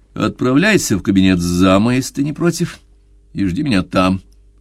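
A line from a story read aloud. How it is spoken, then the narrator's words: Curt dry. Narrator (Russian): сухо бросил Уолтер пианисту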